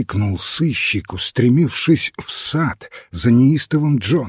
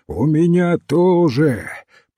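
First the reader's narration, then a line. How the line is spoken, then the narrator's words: Distant booming voice. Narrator (Russian): прогремел голос неустрашимого Джона из темных глубин сада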